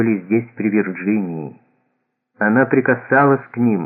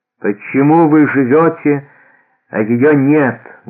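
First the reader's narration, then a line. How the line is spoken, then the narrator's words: Loud question. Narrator (Russian): громко спросил Аллан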